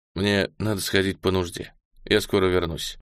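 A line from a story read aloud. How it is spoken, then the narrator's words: Sigh, then plain. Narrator (Russian): Я вздохнул и сказал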